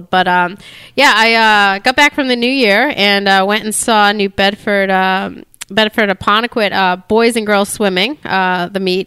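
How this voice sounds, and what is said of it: Voice with a cold, coughing. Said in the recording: “I'm over here coughing ... I have a little bit of a cold”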